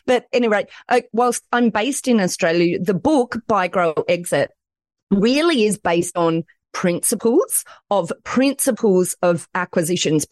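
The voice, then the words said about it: Strong Australian accent. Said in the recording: “I'm in Australia... as people will probably pick up from my accent, I hear the Aussie accent is quite a strong accent”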